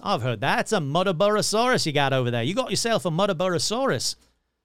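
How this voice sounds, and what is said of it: Bad put-on Australian accent. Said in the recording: “my bad Australian accent”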